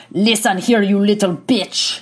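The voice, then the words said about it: Attempted German accent. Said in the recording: “I can't even do a German accent.”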